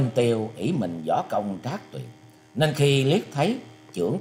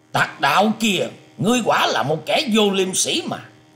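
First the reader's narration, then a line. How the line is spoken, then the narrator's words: Loud angry shout. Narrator (Vietnamese): Người văn nhân mặc áo lam ấy sắc mặt biến hẳn, quát to lên rằng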